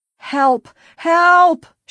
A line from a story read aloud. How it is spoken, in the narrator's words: she screamed